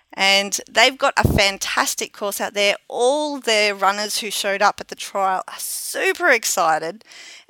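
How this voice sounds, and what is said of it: Hoarse, strained voice. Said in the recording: “if I sound like I'm kind of losing my voice, that's a combination of cheering on Saturday morning, singing at the top of my lungs in the car”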